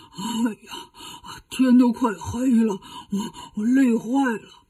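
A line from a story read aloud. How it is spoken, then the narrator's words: Panting, exhausted. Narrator (Chinese): 八戒一边喘着气，一边说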